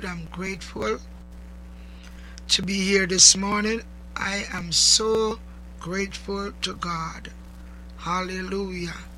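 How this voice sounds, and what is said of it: Slightly hoarse voice. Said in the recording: “excuse my voice ... my voice is a little hoarse”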